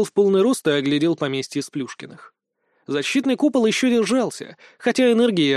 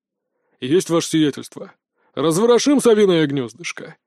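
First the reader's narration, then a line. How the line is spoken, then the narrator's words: Booming drone. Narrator (Russian): прогудел Владислав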